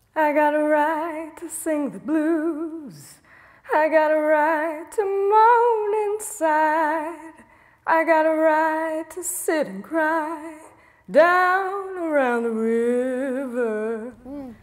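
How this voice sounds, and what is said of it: Sad, mournful singing voice. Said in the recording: “she sounds pretty sad.”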